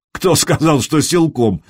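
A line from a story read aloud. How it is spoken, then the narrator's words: Laughing. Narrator (Russian): засмеялся Траин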